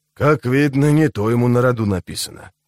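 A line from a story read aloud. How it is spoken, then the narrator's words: Grumble from behind. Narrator (Russian): проворчал кто-то за ее спиной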